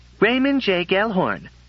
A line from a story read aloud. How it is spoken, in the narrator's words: she said sharply